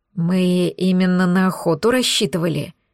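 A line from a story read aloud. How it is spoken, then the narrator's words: Barely audible admission. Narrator (Russian): еле слышно признался Лекс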